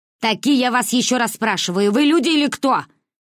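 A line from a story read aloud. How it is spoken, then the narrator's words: Shouting again. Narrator (Russian): выкрикнула она еще раз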